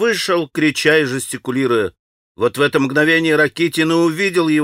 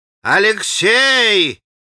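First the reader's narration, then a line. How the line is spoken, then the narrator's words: Father shouting from afar. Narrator (Russian): крикнул ему издали отец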